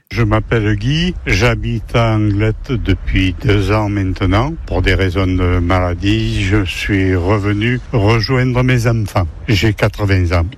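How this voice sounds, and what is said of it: Sing-song regional French accent. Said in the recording (French): “l'accent chantant”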